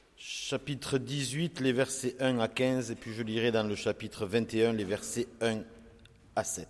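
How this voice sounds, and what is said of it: Southern French accent. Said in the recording (French): “Mon accent du sud peut vous faire sourire”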